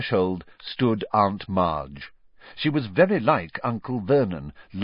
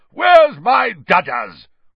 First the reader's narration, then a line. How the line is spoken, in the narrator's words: roared Aunt Marge